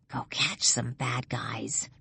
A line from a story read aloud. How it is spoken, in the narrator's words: she whispers